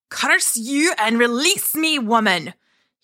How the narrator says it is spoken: shouted

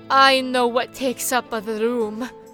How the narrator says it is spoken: said Benny

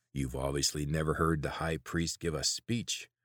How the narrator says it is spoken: the second voice growled

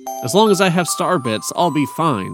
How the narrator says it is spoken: said Luma

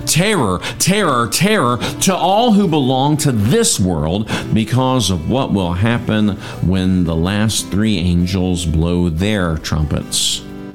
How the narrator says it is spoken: I heard a single eagle crying loudly

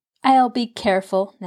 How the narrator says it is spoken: Nancy laughed

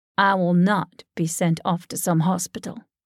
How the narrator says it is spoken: declared firmly and certainly

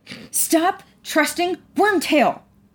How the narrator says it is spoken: Maya yelled, angrily cutting him off

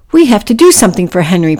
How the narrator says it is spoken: Priscilla cried

